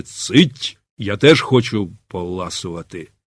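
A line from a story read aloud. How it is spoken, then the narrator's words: Stern muttering to himself. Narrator (Ukrainian): суворо сам до себе промовивши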